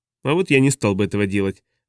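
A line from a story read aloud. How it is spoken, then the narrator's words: Thoughtful, unhurried. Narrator (Russian): задумчиво проронил Хок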